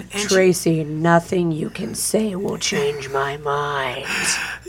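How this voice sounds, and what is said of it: Menacing scary voice. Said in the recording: “that was my scary voice.”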